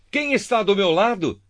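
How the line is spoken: Shouting. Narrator (Portuguese): Jeú gritou

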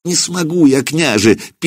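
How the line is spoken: Squeak, wise woman. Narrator (Russian): пискнула ведунья

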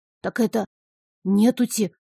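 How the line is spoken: Whispered reply. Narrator (Russian): так же шепотом ответил он

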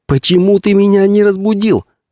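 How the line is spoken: Shouting. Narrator (Russian): кричала она на Ларри

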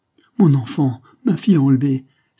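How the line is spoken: Exclaimed. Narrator (French): s'écria Fernande

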